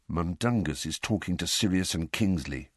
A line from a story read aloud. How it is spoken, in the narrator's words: Fred muttered